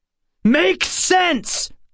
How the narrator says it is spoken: I shouted, losing my temper

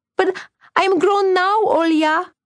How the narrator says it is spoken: cried Vasya immediately, swallowing her tears

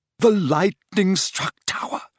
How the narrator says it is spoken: she whispered

